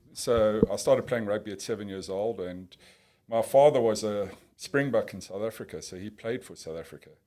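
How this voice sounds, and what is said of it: South African accent. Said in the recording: “so in South Africa, if you pick up from the accent.”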